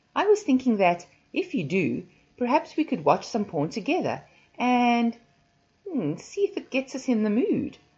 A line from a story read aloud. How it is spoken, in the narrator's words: I giggled